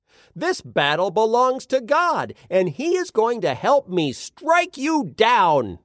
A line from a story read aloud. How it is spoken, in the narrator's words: David yelled